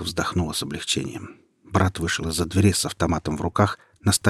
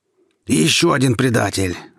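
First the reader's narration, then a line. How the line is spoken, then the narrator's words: Shout. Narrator (Russian): закричал Михаил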